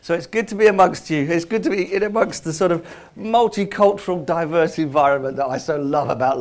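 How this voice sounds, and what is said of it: London accent. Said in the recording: “I'm from London anyway, so you know, you should be able to tell. The longer I spend here, the stronger the accent gets. ... I sound so London”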